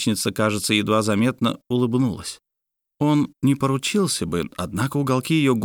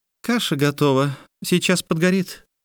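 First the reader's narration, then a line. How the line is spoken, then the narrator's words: Muffled female elf voice. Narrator (Russian): глухо сообщила из-под шляпы эльфийка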